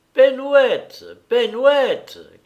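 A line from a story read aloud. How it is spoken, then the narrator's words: Angry reproachful cry. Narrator (French): cria-t-elle avec un accent de colère et de reproche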